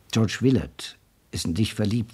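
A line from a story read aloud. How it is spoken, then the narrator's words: Plain. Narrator (German): sagte er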